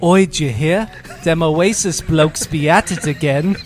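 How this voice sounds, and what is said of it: Put-on British accent. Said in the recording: “Getting in character... So those are my two British people... Yeah, that's how they sound.”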